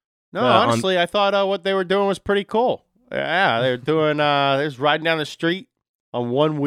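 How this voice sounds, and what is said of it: Usual voice. Nothing is said of it.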